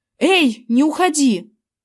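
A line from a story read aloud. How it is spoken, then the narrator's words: Shouted. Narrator (Russian): крикнул я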